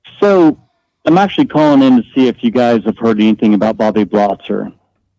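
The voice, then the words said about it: Slight regional accent. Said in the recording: “You have a bit of an accent, sir.”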